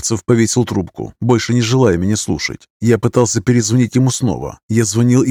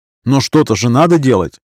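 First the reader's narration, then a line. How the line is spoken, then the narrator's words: Indignant reply. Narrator (Russian): возмущенно ответил я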